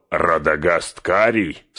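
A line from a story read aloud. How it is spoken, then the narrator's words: Scornful laughing interruption. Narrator (Russian): с хохотом перебил меня Саруман, и его презрение прорвалось наружу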